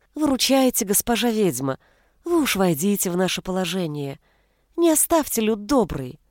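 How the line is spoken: Fawning village elder's voice. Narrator (Russian): заискивающим голоском сказал староста

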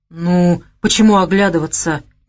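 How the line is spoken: Hesitant start. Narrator (Russian): неуверенно начал Леша

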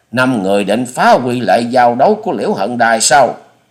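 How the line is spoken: Loud shout. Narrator (Vietnamese): Chủ nhân Ban Quốc hét to

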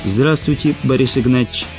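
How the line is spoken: Plain. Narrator (Russian): сказал Антон

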